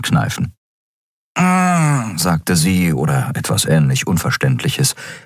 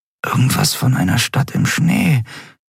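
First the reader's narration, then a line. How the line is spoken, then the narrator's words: Murmuring. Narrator (German): murmelte Endriel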